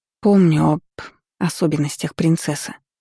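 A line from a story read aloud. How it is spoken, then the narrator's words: Sighing. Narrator (Russian): вздохнула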